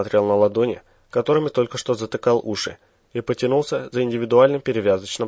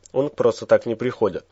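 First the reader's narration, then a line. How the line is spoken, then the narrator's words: Gloomy reply, big man. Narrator (Russian): мрачно ответил здоровяк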